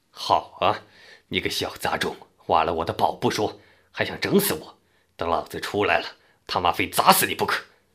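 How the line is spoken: Furious, through clenched teeth. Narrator (Chinese): 杨奎咬牙切齿地说

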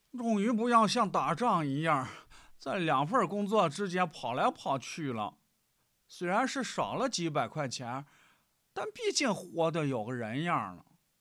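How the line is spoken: Sighing remark. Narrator (Chinese): 对杨丽感叹

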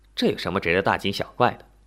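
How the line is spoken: Faint smile. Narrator (Chinese): 耶冯露出浅浅的笑容

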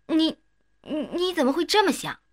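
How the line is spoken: Shocked stammering. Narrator (Chinese): 瞪大眼睛，差点晕过去，结结巴巴地说

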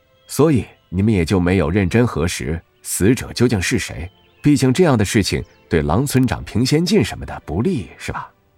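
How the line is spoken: Calm, detached. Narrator (Chinese): 沈月淡淡地说了一句

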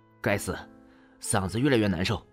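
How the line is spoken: Furious cursing. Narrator (Chinese): 气得脸色苍白 气得怒骂

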